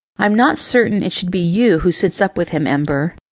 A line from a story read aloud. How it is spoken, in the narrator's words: Tempest said